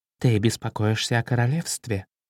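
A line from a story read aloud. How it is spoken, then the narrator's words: Mother asking. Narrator (Russian): спросила мама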